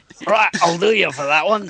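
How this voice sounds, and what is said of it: Put-on Scottish accent. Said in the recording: “a Scottish lich ... so envy your ability to do that accent”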